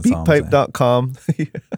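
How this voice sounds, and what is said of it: Voice cracks mid-word. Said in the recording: “My voice cracked right there... That's how passionate I am about this.”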